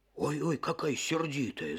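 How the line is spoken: Wolf grumbling. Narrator (Russian): заворчал волк

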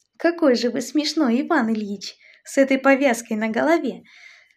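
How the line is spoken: Happy laughing speech. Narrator (Russian): Смеялась Варенька и вся светилась чистым, как лучик солнца в ясном небе, счастьем

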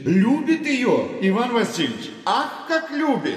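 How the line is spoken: Shouted. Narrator (Russian): Закричал Фома Стриж

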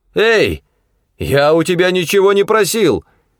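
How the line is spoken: Shout. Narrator (Russian): крикнул Коллинз машине

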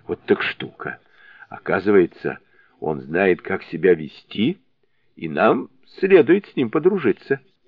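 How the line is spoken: Laughing, husky voice. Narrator (Russian): Засмеявшись, он сказал сиплым голосом

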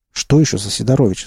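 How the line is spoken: Plain. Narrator (Russian): спросил я

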